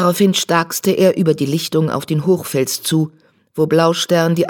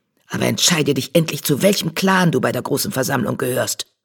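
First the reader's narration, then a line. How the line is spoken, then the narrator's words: Hissed. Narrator (German): zischte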